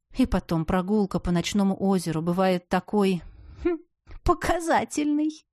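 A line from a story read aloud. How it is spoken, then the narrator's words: Giggling. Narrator (Russian): хихикнула я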